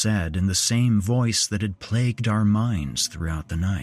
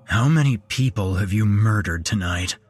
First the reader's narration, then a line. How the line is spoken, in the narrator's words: growled Travis